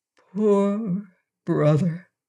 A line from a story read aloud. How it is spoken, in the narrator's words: said Shaggy softly, from sympathy